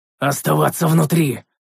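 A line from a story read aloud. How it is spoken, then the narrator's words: Gruff growl. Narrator (Russian): рыкнул я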